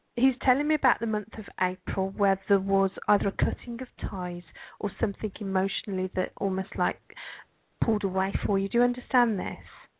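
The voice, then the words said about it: Birmingham English Brummie accent. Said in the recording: “you have an accent. Your accent's different than my accent. ... I'm what you might call a Brummy. I come from Birmingham in England.”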